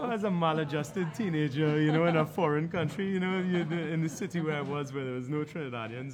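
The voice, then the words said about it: Trinidadian accent. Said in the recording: “you have a very Trinidadian accent ... I do have the accent still”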